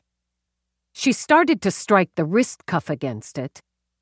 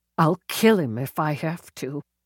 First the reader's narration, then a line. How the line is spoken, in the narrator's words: she mumbled